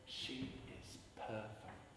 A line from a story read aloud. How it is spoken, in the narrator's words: I whispered to Dawn